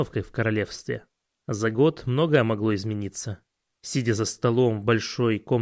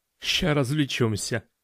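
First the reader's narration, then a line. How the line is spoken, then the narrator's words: Chuckling. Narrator (Russian): хохотнул один из них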